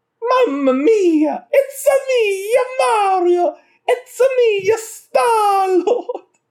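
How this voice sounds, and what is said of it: Mario voice impression. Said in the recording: “Charles Martinet ... impression of his most famous character”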